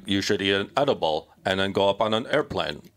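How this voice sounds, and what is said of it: Imitates another person's voice, halting. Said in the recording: “That's how he talks ... that's a great impression ... it just sounds like you were stalling out ... that's what he sounds like”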